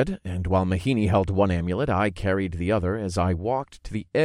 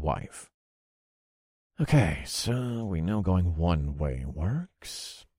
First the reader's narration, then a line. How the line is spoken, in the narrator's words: I muttered